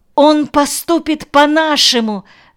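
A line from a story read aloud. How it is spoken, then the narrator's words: Sharp cry. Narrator (Russian): вскрикнула Ноя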